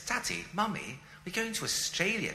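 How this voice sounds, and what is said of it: Put-on posh British accent. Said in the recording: “I had this beautiful British accent. I talk like this”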